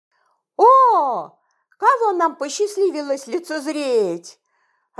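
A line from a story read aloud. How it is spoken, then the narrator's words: Joyful exclamation. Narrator (Russian): радостно вскричал Федор Эдуард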